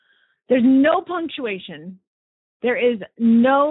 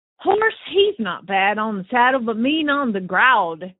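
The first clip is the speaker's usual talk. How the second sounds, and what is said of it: Put-on Southern accent. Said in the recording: “So we are doing this in a Southern accent. ... trying to do a Southern accent.”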